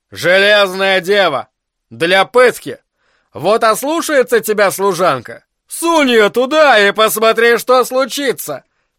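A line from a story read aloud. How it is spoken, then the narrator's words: Laughing loudly. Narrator (Russian): хохотал граф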